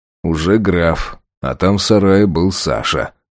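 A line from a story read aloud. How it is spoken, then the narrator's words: Muttering to himself. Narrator (Russian): пробурчал я про себя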